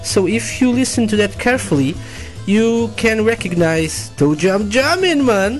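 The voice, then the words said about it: Put-on Jamaican accent. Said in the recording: “some Jamaican accent for you, man! Or something like that.”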